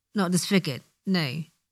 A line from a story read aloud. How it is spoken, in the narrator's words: he chuckles weakly